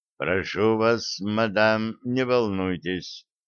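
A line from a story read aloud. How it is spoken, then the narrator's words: Flat colorless voice. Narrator (Russian): сказал Хинкль бесцветным голосом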